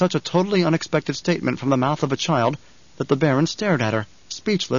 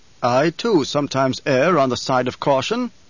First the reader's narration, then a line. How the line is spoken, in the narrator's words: the Emperor said